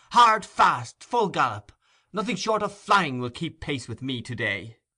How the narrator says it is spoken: he cried

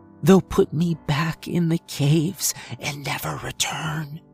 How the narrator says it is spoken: she whispered

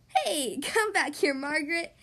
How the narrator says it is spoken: Daniel called out

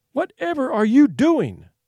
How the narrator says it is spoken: she cried

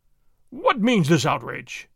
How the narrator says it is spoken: exclaimed

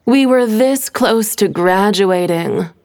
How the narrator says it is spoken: Stephanie groaned, still in shock

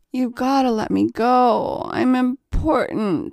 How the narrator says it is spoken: he slurred at her

